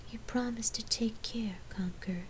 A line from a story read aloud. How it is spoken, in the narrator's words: she whispered